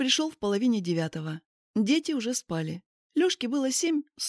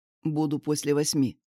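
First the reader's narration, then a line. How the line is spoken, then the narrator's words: Curt, clipped. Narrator (Russian): отрывисто сказал он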